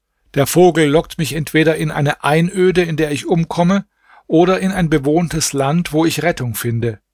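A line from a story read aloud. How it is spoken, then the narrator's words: Exclaimed. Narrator (German): rief der Prinz aus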